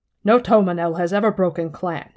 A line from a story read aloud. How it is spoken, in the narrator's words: Han barked